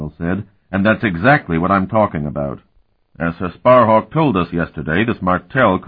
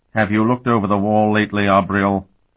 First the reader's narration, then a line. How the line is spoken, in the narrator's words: Vanion asked dryly